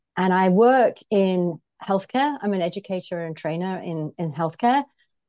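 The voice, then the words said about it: British accent. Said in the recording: “I am British, as you can probably hear from my voice.”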